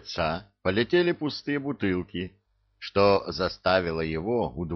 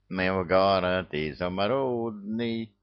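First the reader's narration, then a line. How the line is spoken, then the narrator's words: Nasal singing voice. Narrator (Russian): затянул чей-то гнусавый голос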